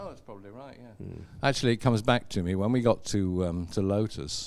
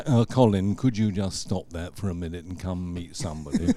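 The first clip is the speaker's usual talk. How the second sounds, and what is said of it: Imitates another person's voice. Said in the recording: “That's a good imitation.”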